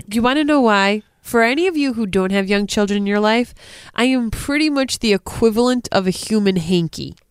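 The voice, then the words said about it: Stuffy-nosed Rhode Island accent. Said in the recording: “I'm sick again ... a stuffy-nosed Rhode Island accent”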